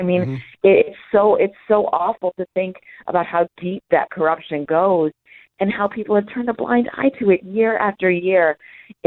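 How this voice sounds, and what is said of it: Tired-sounding worn voice. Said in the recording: “Sadly, you can hear it in my voice.”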